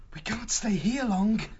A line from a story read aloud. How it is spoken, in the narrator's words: Martin panted